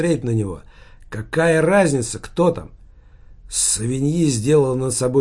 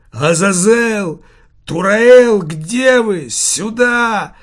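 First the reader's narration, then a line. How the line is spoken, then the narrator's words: Roaring shout. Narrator (Russian): взревел Савиньи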